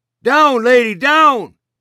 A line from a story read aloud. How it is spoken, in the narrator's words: Sablo shouted